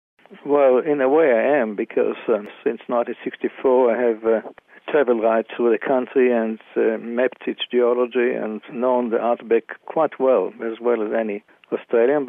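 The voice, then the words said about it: Non-Australian accent. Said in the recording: “You don't sound like a typical Australian... I have an accent. My father was from Germany, my mother from Latvia”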